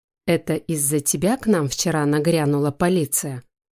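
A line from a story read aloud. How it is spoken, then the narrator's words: Menacing question. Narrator (Russian): Грозно сверкнув глазами, спросил Айдар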